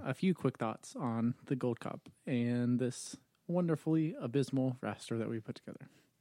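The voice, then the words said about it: Monotone advertising announcer voice. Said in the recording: “why do you sound like you're reading an ad right now? ... monotone monologue ... I was reading it in my best advertising voice”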